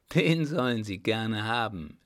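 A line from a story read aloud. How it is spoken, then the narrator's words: Soft laugh. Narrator (German): lachte er leise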